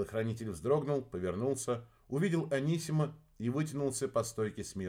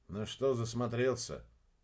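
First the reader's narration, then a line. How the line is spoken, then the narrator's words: Quiet question. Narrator (Russian): негромко спросил Купер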